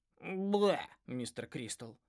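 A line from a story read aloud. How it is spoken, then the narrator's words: Snorting. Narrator (Russian): фыркнула Полли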